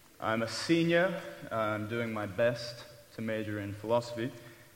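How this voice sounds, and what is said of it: British English accent. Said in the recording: “as you can probably tell from my accent ... That's an example of British humor ... I left that glorious country of England”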